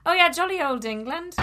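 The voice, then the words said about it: Put-on English accent. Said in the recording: “jolly old England? Do your accent.”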